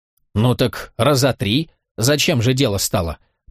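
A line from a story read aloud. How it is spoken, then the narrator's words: Predatory catlike snort. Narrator (Russian): покошачьи хищно фыркнула Афарга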